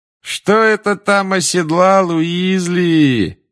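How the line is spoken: Mocking singsong. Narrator (Russian): насмешливо пропел Малфой

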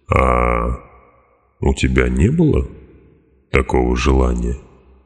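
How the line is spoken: Calm question. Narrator (Russian): спокойно спросил Турбер

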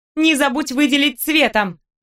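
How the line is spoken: Shout after someone. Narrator (Russian): крикнула я ему вслед

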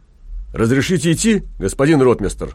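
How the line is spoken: Barked loudly. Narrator (Russian): гаркнул он

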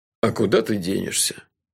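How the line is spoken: Lazy agreement. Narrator (Russian): лениво согласился тот

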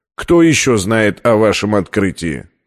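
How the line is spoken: Plain question. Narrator (Russian): спросил директор

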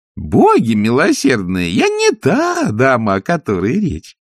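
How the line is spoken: Laughing. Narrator (Russian): засмеялась нянюшка Яг

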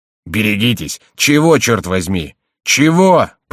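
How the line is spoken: Jailer's roar. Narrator (Russian): проревел тюремщик

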